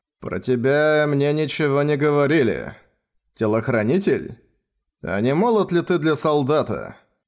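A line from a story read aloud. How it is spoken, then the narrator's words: Rude question. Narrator (Russian): Грубо спросил киллер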